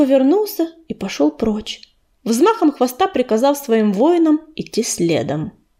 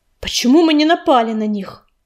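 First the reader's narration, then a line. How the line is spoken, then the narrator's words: Sharp question. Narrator (Russian): резко спросил Дым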